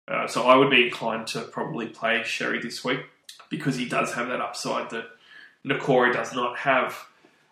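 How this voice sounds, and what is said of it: Croaky, hoarse voice. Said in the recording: “my voice is a bit croaky. I've had a bit of a cold the last week.”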